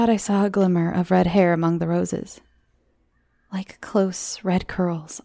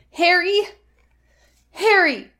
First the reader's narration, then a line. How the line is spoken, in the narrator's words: Like a madwoman, I shouted